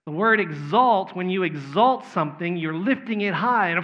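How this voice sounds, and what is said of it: Texas accent. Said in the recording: “my Texas accent is blurring that A a little bit”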